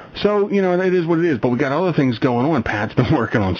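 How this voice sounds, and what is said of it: Usual voice. Nothing is said of it.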